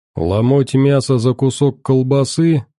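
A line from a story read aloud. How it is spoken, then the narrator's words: Scoffing grunt. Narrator (Russian): хмыкнул Манул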